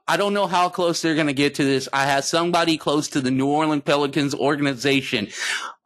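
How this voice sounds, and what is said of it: Excited voice. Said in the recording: “you can hear the excitement in my voice”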